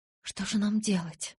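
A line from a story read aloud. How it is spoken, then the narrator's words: Terrified whisper. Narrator (Russian): в ужасе прошептала я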